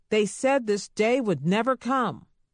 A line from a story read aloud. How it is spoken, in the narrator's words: he bellowed